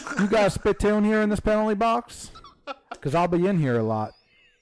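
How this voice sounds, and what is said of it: Cowboy-style voice impression. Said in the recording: “your Nazem Kadri cowboy impression ... He doesn't sound too Canadian.”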